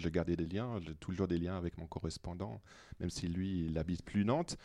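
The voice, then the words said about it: Non-native French accent. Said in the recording (French): “Vous avez reconnu peut-être à travers mon accent que je ne suis pas nantais d'origine”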